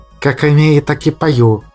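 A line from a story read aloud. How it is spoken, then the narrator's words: Snapping silent retort. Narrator (Russian): мысленно огрызнулся Мимар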